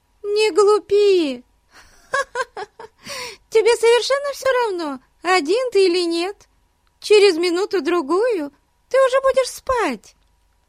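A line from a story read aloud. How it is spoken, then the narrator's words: Laughing. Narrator (Russian): Засмеялась Бетси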